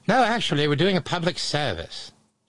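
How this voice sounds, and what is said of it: Put-on British accent. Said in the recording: “I'm just doing the British accent”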